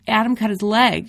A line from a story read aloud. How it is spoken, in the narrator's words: cries out